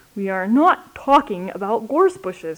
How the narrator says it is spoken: said Al, a little crossly

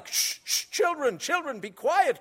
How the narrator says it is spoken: cried the Patmos sisters in alarm

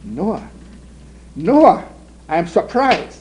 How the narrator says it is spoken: she cried

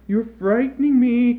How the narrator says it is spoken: cried Mother

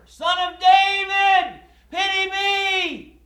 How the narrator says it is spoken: he screamed all the louder

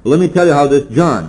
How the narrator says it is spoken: said

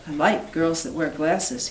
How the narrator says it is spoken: he said

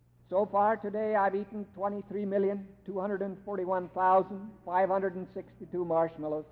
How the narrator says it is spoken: said the lion

